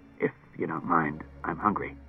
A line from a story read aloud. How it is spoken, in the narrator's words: Klusar muttered